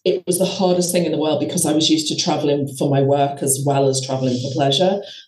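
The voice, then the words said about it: Slightly hoarse, throaty voice. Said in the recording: “I've got a little bit of a frog in my throat.”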